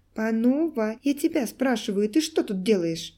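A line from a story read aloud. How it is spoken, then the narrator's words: Indignant and hurt. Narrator (Russian): повторила Света возмущенно и вместе с тем обиженно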